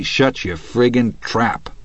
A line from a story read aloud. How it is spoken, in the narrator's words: Hadley growled